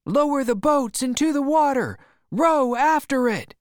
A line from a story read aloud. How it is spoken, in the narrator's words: they shouted